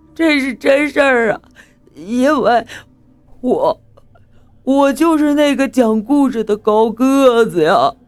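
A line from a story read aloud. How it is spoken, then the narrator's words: Crying over walkie-talkie. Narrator (Chinese): 大伟在对讲机里哭了起来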